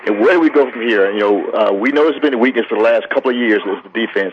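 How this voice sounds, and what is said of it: Frustrated-sounding voice. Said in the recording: “you can tell in my voice, I'm very frustrated.”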